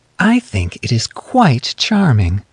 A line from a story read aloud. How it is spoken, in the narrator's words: she said in her slow, crystal tones